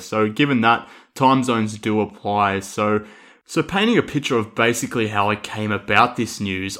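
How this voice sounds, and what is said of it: Australian accent. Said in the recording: “I'm obviously with my accent here from Australia”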